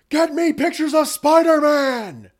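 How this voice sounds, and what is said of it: Yelled, angry shouting. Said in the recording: “That is my J. Jonah Jameson impersonation. I didn't actually change the voice. I'm just doing the shaking the fist and yelling thing.”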